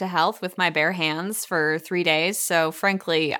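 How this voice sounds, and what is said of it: Usual voice. Nothing is said of it.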